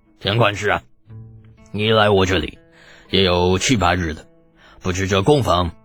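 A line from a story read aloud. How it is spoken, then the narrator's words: Loud after hearty laughter. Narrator (Chinese): 这秃噜闻言哈哈大笑……大声道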